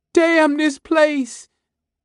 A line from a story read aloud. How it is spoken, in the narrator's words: it sobbed